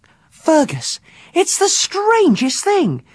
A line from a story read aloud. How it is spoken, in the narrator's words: she said excitedly